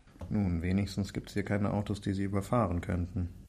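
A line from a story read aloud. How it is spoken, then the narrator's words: Murmured. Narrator (German): murmelte Viktor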